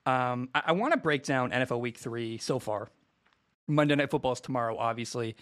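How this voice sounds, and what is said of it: Quiet, monotone, casual voice. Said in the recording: “I'm not going to yell and scream today ... I'm talking in a very monotone, casual voice that is not too loud ... talking in this like volume”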